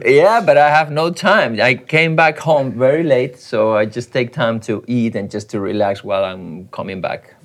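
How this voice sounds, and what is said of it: Catalan-accented English. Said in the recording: “with a Catalan accent”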